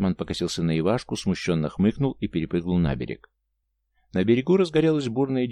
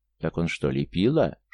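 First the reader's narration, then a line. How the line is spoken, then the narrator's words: Surprised soft whisper. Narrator (Russian): шепотом, от которого даже волны разгладились, удивился Михайло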